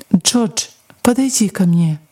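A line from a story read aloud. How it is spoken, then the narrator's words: Gentle speech. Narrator (Russian): доктор мягко сказал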